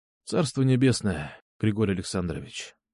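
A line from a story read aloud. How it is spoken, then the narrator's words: Quiet. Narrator (Russian): тихо сказал я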